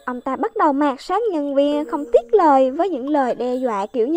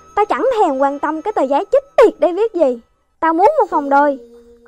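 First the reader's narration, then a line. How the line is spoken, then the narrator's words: Angrier customer. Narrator (Vietnamese): Ông khách càng giận dữ hơn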